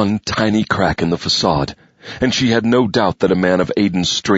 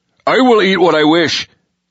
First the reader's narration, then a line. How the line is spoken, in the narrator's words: he snapped